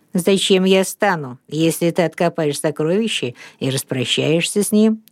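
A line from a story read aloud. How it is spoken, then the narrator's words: Calm answer. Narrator (Russian): спокойно ответил Лив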